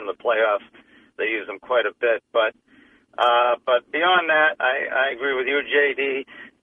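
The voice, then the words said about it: Strained, fading voice. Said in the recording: “I'm losing my voice. ... We'll let you rest that voice up.”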